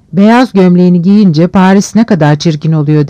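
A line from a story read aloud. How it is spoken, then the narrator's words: Plain. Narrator (Turkish): dedi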